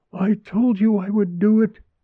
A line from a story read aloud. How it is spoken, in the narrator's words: Mary gasped